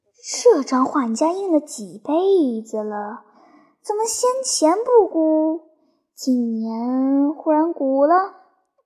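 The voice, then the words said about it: Quiet, hushed voice. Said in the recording (Chinese): “小声问他”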